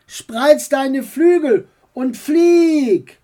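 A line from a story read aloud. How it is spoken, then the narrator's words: Called out. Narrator (German): rief ihm dein Onkel zu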